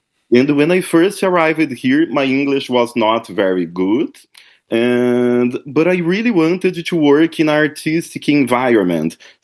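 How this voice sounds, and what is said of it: Brazilian accent. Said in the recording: “I don't know if you realize it by my accent, but I am from Brazil. I am Brazilian.”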